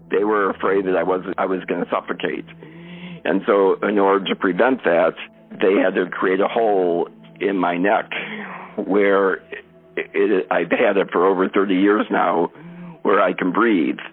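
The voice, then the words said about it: Very hoarse, strained voice. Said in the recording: “you hear a very hoarse voice. It's because my vocal cords are stuck over my airway, and so it's just harder for me to get air in and out.”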